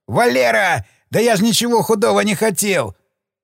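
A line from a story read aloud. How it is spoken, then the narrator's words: Corpse shouting. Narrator (Russian): труп закричал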